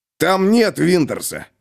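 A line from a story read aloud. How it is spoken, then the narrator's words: Growled. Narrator (Russian): зарычал Груди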